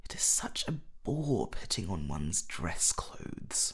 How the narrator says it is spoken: muttered Hallward

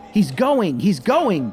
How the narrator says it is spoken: the boy cried

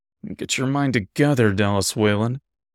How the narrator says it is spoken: muttered to myself frustratedly

